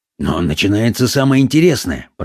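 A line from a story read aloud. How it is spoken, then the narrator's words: Mumbling. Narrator (Russian): пробормотал Паунд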